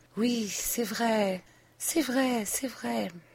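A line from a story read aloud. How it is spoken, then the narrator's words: Low, intermittent voice. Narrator (French): elle disait de temps à autre, à voix basse et les paupières à demi fermées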